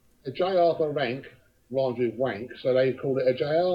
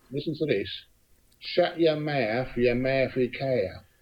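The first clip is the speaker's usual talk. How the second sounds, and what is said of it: Put-on Cockney accent. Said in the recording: “Is a bit in a Cockney accent”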